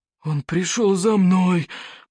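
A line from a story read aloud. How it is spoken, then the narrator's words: Moaning, trembling with fear. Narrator (Russian): простонал Норберт сумасброд, дрожа от страха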